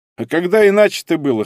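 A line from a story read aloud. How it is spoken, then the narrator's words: Snorting chuckle. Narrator (Russian): хмыкнул я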